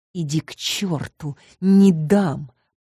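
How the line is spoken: Through gritted teeth. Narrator (Russian): процедила сквозь зубы я

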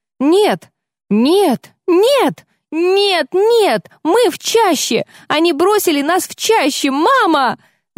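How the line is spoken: Panicked screaming girl. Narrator (Russian): Завопила она

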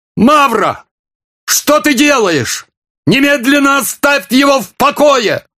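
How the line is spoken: Shouting. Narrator (Russian): закричал великий князь

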